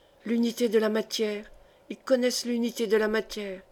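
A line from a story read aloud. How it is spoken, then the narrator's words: Dazed murmur. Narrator (French): murmura Densmold, presque hagard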